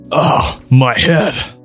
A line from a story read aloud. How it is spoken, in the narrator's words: Tahu grunted